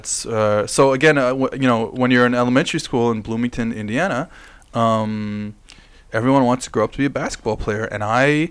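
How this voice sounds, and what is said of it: American Midwestern accent. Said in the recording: “You sound like you have a bit of an accent there. ... The Midwest. ... Oh, clearly. The Midwest”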